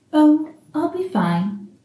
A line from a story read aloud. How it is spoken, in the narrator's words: Aziraphale says, smiling weakly